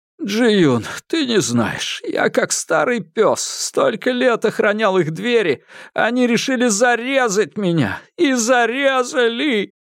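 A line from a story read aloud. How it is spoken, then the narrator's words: Breaking down, sobbing. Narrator (Russian): Джан Гуй не выдержал и разрыдался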